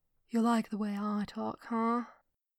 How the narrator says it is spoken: He whispered into Thrawn's ear, making it a point to drawl the words

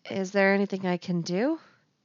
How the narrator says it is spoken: Anakin asks hesitantly

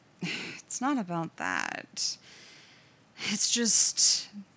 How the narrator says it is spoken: sighed

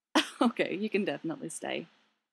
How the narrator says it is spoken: Tony chuckles

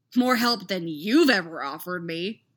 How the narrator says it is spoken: he snapped

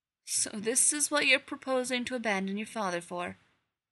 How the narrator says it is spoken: Father said, his tone grave and disappointed

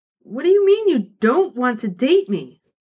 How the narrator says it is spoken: She sputtered, affronted

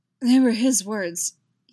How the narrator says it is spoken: Yaskir says, a little choked

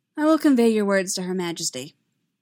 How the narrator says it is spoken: Rabe said coolly

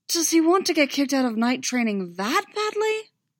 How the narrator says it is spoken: Tom chuckled

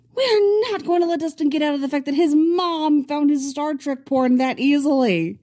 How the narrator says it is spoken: Mike shrieks

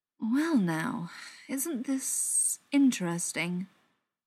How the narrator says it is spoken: Beckett drawled

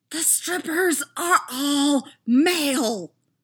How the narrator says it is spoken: Anakin whisper shouts into his comm

